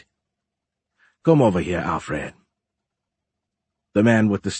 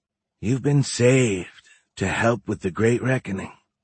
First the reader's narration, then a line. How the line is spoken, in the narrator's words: Alfred said in an almost soothing voice